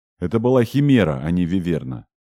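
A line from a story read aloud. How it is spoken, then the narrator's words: Stern correction. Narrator (Russian): строго поправил Тэтчер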